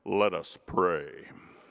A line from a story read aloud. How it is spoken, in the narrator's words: With a deep voice, he intoned